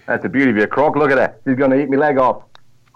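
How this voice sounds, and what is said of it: Australian accent, Steve Irwin impression. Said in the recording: “Where's the accent? ... G'day, mate. Yeah, Steve Irwin here.”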